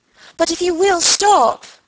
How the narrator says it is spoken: cried Margaret

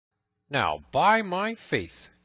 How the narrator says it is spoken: cried Little John

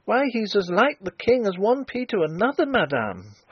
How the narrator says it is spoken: cried the girl, a little shaken, but still obstinate

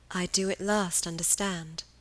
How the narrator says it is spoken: repeated Helen, her voice growing more tender

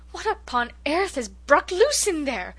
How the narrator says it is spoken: gasped Cousin Sophia

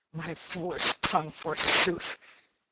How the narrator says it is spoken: growled Little John to Arthur a Bland

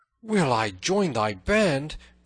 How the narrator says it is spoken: cried the tanner joyfully

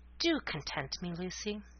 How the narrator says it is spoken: coaxingly, he said softly

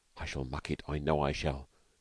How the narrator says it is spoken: whispered Stalky uneasily

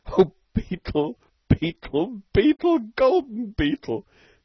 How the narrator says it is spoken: sobbed Stalky

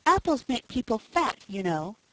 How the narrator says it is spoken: said Felicity sweetly

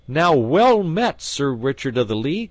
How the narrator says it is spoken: cried he

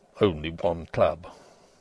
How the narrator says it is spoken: mutters from his inmost stomach the pursy rector

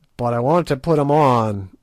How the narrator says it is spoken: roared Good in nervous English

